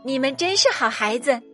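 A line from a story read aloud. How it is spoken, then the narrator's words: Laughing. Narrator (Chinese): 兔子太太笑了起来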